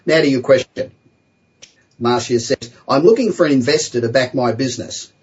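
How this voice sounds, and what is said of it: Australian accent. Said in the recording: “I also love your Aussie accent... I still sound like I just got off the plane yesterday. So I guess I'm stuck with that accent”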